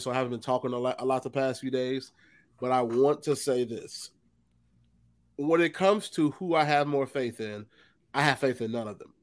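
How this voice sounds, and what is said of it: Sick-sounding voice. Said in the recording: “I've been sick, as you can tell by my voice”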